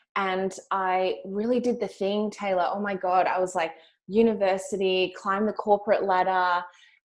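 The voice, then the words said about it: Australian accent. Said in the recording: “I'm also from Australia. You can hear from my accent.”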